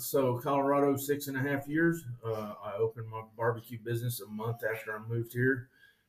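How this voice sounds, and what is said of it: Southern American accent. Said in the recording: “that's just where the accent comes from... Just a southern accent?”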